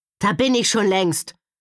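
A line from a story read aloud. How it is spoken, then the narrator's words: Bellowing back. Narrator (German): brüllte Gavin zurück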